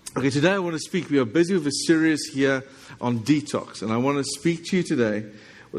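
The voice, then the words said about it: South African English accent. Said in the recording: “my accent... this is South African English... I know you speak American on this side... they don't understand me”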